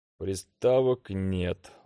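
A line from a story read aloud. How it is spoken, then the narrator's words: Glum flat statement. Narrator (Russian): уныло констатировал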